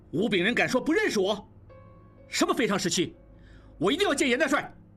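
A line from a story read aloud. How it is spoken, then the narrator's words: Furious. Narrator (Chinese): 应季勃然大怒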